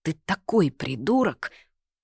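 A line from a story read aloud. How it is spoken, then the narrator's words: Snorting, muttering. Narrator (Russian): она опять фыркает, бормоча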